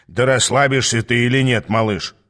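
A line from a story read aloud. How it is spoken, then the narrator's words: Grumbled. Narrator (Russian): проворчал Аас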